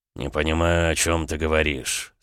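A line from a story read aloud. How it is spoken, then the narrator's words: Through gritted teeth. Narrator (Russian): сквозь зубы проговорил Александр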